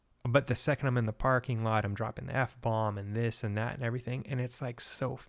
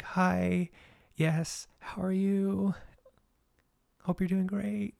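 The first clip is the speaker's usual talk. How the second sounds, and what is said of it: Sweet, polite altar-boy voice. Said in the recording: “I sounded like an altar boy”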